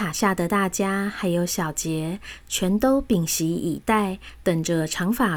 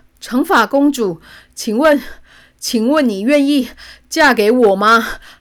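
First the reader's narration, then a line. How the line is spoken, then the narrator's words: Breathless question. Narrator (Chinese): 王子气喘吁吁地问道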